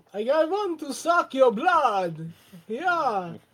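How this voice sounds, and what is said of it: Stereotypical Romanian Dracula accent. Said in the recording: “You should do it as Dracula ... a really offensive, stereotypical Romanian accent.”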